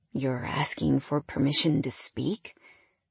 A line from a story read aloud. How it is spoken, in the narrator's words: I sighed